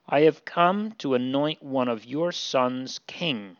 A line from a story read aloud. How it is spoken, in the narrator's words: he says